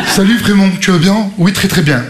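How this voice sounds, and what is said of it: Put-on Parisian French accent. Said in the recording (French): “Ils ont tous accent parisien.”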